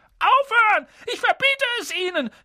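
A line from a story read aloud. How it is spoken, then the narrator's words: Panicked scream. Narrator (German): schrie Onkel Vernon in Panik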